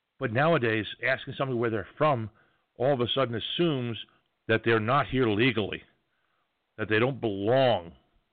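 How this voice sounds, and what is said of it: New York accent. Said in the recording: “I speak with an accent. ... when I open my mouth, it says New York loud and clear”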